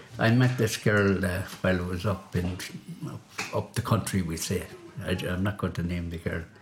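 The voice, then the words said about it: Speaks with a distinctive accent. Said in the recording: “I just love your accent”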